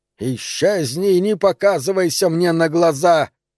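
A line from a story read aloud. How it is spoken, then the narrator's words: Hiss. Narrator (Russian): прошипел он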